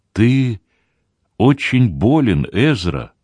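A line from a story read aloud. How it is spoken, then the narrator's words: Sad. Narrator (Russian): печально заметила Майра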